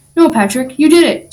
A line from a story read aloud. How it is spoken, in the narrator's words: SpongeBob exclaimed